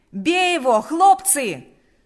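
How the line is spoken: Shouting again. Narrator (Russian): снова закричал Панас

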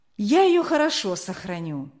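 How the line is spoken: Tender. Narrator (Russian): сказал он ласково

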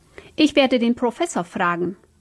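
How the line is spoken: Growled. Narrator (German): knurrte Frau Haneck

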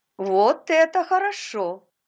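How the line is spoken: Joyful. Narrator (Russian): сказала она радостно

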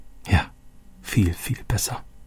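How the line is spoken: Quiet. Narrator (German): sagte Roberto leise

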